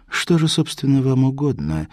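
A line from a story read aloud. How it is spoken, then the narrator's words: Curt unfriendly question. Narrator (Russian): спросила она не очень любезным тоном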